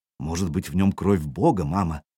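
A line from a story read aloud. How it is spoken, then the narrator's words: Dreamy whisper. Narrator (Russian): мечтательно прошептала она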